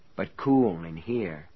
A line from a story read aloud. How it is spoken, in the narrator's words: he said soothingly